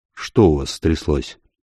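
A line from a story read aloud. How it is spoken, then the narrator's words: Quiet question. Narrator (Russian): тихо спросил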